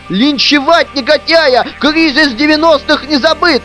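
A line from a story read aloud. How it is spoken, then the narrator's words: Shouted in unison. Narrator (Russian): Опять дружно прокричали активисты из движения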